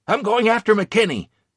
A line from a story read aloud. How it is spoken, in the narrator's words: I shouted to anyone who might be listening